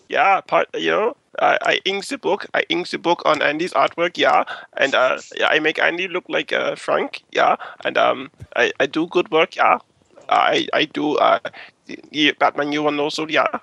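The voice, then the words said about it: Put-on Bavarian accent. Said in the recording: “Bavarian.”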